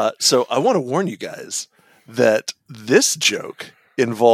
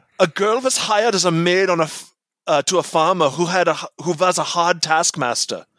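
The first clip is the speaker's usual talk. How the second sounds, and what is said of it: Bad put-on German accent. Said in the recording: “I'm going to do the whole thing in a bad German accent ... The whole thing in the bad German accent.”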